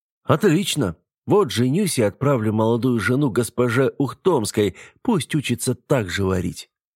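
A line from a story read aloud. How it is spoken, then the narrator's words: Chuckling. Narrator (Russian): хохотнул Петр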